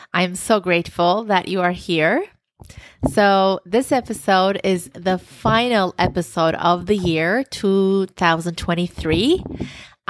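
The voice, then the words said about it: Warm, smiling voice. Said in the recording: “As you can hear from my voice, I'm smiling from ear to ear.”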